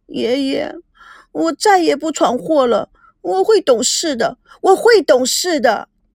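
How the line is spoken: Crying. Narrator (Chinese): 赵美娇边哭边说

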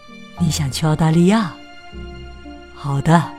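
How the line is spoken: Gentle. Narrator (Chinese): 多尼温柔的看着儿子说

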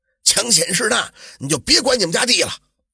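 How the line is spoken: Yelling. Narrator (Chinese): 他就冲着胡员外吼

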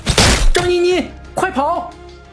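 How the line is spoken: Half-drunk shouting. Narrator (Chinese): 半醉半醒的吕乐，高喊道

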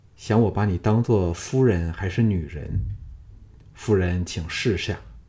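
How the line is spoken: Gentle, soft. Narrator (Chinese): 他柔声说

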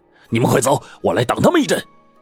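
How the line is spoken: Shouting. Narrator (Chinese): 那中年人 朝他们喊

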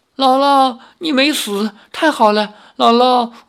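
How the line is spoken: Crying. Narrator (Chinese): 灵儿哭道

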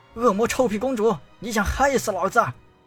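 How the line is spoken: Loud angry cursing. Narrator (Chinese): 听他大声叫骂

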